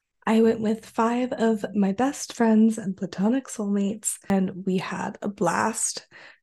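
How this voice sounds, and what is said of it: Hoarse, strained voice. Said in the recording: “I lost my voice ... if I sound a little funny”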